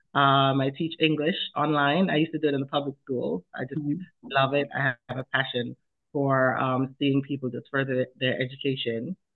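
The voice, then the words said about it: Jamaican accent. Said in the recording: “you might hear an accent. That's because I'm Jamaican. I was born in Jamaica, West Indies.”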